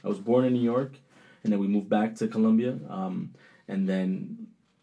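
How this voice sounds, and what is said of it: Colombian accent. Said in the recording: “I still have the Colombian accent”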